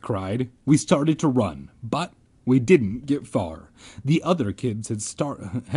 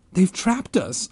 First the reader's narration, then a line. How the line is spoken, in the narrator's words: I cried